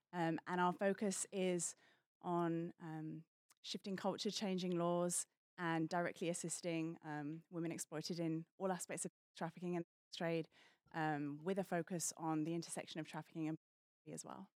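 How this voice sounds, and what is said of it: British accent. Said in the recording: “I'm originally from the UK, hence the funny accent.”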